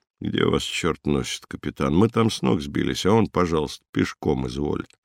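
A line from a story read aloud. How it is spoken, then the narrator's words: Sleepy displeased grumble. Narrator (Russian): проснулся, пробурчал недовольно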